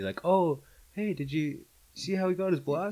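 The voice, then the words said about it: Imitates a typical casual moviegoer. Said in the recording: “impersonation of the average moviegoer”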